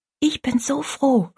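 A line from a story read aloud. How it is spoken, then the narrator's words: Whispered. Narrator (German): flüsterte Rosalie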